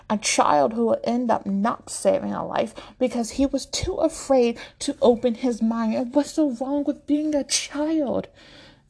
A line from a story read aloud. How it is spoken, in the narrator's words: Reed shouts